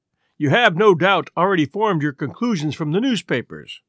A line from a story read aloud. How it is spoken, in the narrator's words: he said